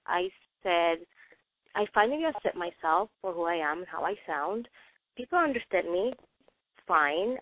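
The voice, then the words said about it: Non-native English accent. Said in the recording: “I have an accent when I speak English... That's my accent”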